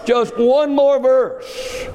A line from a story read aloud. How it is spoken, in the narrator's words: With a quivering voice, he cries out